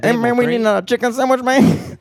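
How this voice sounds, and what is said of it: Exaggerated parody of an accent. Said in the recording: “this grotesquely fucking parodied version of my accent”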